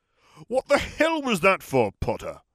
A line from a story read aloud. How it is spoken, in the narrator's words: Smith spat